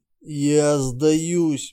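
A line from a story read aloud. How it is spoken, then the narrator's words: Hoarse wheeze. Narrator (Russian): прохрипел Торн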